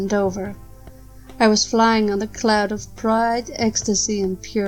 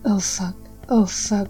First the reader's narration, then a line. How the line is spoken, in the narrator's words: As the waves of pleasure rolled through us, ... whispering